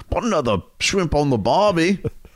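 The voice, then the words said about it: Put-on Australian accent. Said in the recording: “whip out your Australian accent ... Do that accent”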